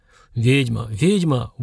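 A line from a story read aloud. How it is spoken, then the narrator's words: Drunken breathy exclamation. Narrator (Russian): выдохнула вместе с перегаром та, кого давно уже звали Нинухой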